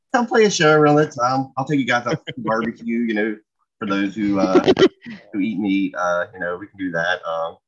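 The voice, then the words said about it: North Carolina Southern accent. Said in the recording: “If you couldn't tell by the accent, it sounds like cornbread... I'm in North Carolina.”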